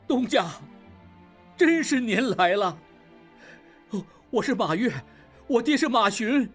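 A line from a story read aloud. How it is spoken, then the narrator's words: Tearful shout. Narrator (Chinese): 小马掌柜含泪喊道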